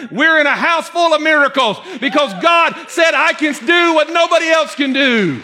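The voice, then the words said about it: Yelling, fired-up preaching. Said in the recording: “why are you yelling? Because I'm fired up.”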